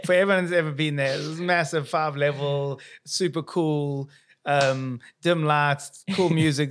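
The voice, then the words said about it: South African accent. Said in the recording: “here's my accent, South African”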